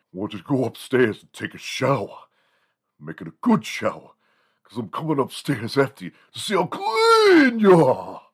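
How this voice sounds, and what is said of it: Exaggerated imitation of another person's voice. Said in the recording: “imitating ... we were exaggerating the Rodney Dangerfield part of it”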